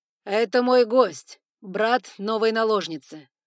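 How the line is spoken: Booming. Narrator (Russian): прогремел Эван Байринг

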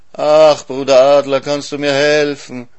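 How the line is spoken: Pitiful groaning. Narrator (German): die Hyäne stöhnt ganz jämmerlich

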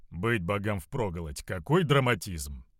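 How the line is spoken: Grumble. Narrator (Russian): пробурчал

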